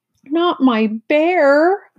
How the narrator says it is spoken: cried

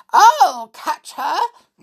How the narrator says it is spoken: cried Mother Bear

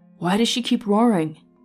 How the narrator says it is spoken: Seb asked his dragon anxiously

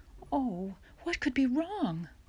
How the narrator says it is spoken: Ma exclaimed

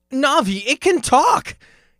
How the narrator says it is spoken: he exclaimed

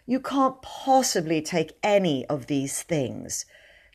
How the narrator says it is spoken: said faintly but firmly

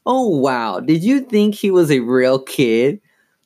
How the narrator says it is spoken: Lindsay laughed scornfully

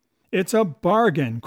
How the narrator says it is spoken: cried Long John

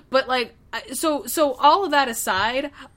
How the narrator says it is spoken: I cried

